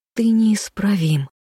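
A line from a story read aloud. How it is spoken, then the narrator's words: Hiss. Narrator (Russian): с губ Левелин сорвалось шипение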